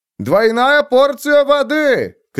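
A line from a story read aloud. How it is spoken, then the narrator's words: Cook shouting from doorway. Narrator (Russian): крикнул один из поваров от двери в подсобку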